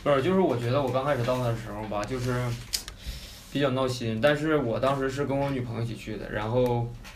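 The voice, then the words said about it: Northeastern Chinese accent. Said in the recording (Chinese): “这哥们儿是东北的，请大家见谅一下他这口音”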